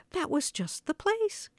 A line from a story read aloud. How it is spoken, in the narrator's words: cried Henny Penny